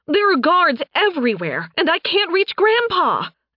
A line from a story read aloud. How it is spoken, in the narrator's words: Alice shouted